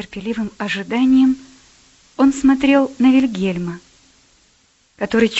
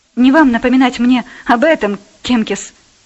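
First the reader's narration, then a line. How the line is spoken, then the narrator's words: Angry. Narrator (Russian): он сказал сердито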